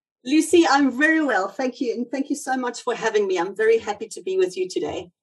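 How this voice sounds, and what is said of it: South African accent. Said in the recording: “I've got South African roots, as you might hear from my accent.”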